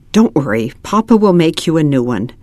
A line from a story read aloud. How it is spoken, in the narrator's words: Mama whispered